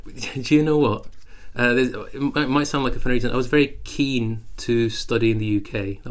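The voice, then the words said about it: Strong British accent, slightly Scottish. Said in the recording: “You have a very strong British accent ... I can hear a slight Scottish accent.”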